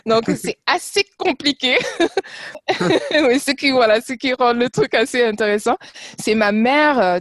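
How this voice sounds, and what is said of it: Foreign accent in French. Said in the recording (French): “Mais pourquoi tu as un accent”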